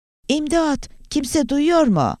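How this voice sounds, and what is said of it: Shouting at full strength. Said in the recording (Turkish): “var gücüyle bağırmaya başladı”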